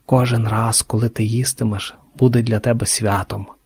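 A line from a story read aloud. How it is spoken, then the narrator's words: Old man's whisper. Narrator (Ukrainian): шепотів голос під капелюху старого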